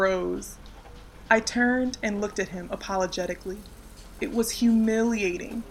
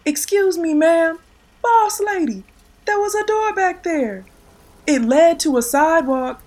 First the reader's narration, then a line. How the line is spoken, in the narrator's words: He yelled again